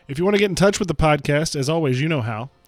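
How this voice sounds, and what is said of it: Sick voice, sore throat. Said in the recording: “I'm a little under the weather. Maybe you can hear it in my voice. ... I'm a little sick. ... sore throat”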